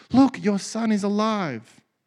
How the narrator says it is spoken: the prophet exclaimed

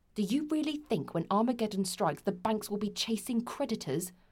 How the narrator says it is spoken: Ben snapped

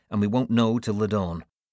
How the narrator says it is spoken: said curtly

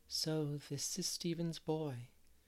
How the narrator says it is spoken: she said in a low tone

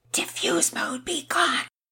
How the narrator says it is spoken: whispering

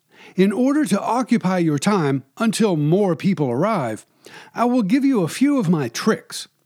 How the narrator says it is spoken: exclaimed

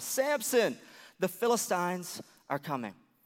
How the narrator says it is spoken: Delilah shouted one more time

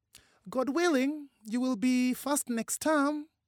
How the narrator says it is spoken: Mama said, in a jolly voice

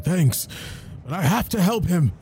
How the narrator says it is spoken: scream

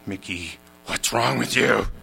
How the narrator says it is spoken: Javier, the Mexican janitor, growled

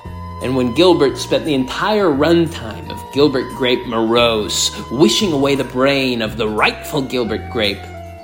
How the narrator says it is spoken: Johnny Depp spat

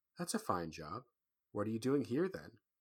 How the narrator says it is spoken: Another murmur

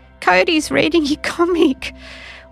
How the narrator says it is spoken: said with a giggle at the end

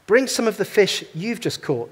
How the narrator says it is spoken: Jesus said

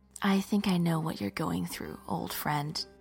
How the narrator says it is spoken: whispered in his ear

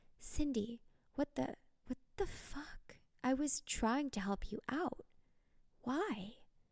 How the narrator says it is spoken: Gasping for air, said

